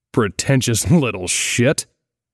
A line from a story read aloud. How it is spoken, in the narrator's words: he grunted